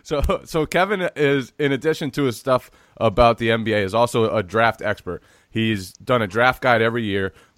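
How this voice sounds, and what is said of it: Sick, slightly altered voice. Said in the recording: “I am fighting through illness today. If my voice sounds a little different, that's why. If I start coughing, that's why.”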